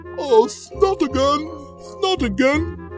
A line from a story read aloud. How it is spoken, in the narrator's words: exclaimed the snake